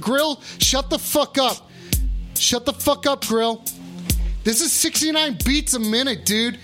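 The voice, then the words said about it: Yelling loudly. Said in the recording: “Sorry, I'm yelling.”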